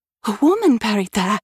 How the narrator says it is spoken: exclaimed in surprise

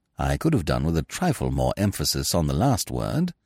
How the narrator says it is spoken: said Smith gently

